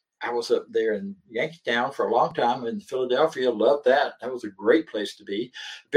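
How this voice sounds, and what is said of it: Southern American accent. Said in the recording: “I never lost this accent. So I always got identified as a Southerner”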